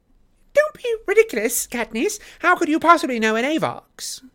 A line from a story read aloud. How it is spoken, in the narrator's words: snaps Effie